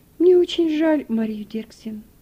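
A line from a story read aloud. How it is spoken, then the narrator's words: Sighing. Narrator (Russian): вздохнула хозяйка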